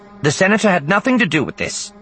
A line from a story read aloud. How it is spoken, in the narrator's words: Sina cut him off sharply